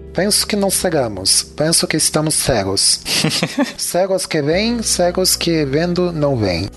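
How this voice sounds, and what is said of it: Poor put-on European Portuguese accent. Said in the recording (Portuguese): “eu vou ler até em, com sotaque português ... Teu português é quase um muçulmano, né? ... é ficou ruim”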